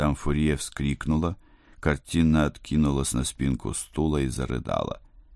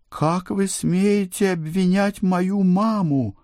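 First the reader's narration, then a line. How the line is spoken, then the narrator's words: Indignant wail. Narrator (Russian): взвыла Эльвира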